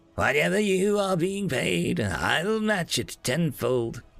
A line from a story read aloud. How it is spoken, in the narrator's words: whimpered Nosep